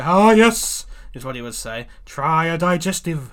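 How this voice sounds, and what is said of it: Character voice of old-time apothecary. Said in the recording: “the apothecary, in my impression”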